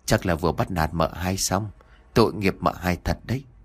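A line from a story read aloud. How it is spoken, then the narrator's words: Muttering. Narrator (Vietnamese): Sen miệng không quên lẩm bẩm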